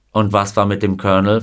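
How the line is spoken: Plain. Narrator (German): fragte Himes

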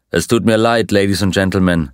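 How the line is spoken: Plain. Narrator (German): sagte er

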